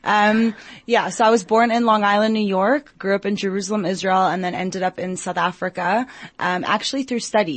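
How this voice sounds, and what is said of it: Strong American accent. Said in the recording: “my accent is still very strong in terms of American”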